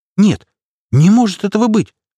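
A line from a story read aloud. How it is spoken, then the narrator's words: Exclaimed. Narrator (Russian): воскликнула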